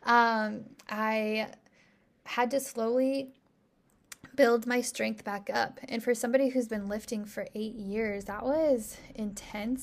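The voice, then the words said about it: Strained, failing voice. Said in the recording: “<clears throat> sorry i'm like losing my voice”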